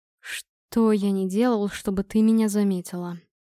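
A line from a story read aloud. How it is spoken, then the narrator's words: Tired, muffled voice. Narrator (Russian): Голос звучал устало и глухо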